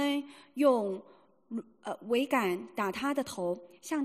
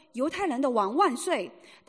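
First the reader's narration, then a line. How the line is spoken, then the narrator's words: Shouting. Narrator (Chinese): 卫兵喊着说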